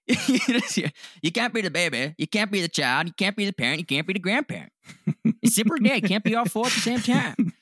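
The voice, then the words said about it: Imitates another person's voice. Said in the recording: “Are you doing like an Adam Sandler impersonation? ... That's kind of maybe what he sounds like a little bit ... getting like Billy Madison vibes now.”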